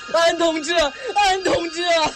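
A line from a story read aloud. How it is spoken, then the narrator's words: Terrified scream. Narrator (Chinese): 阿炳的房间里传出了阿炳恐怖的尖叫声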